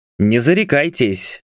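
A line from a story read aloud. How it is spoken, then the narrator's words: Man's snort. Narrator (Russian): хмыкнул мужчина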